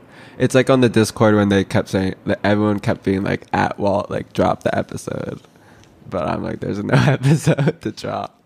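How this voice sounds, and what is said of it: Sick voice with vocal fry. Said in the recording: “I'm mad sick ... The haters are going to be even more mad at my vocal fry than usual ... I'm sick, I'm jet lagged”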